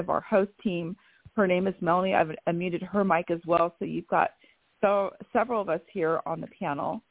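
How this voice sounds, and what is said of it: Raspy voice. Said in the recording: “I have horrible, horrible allergies ... I do apologize for my raspy voice”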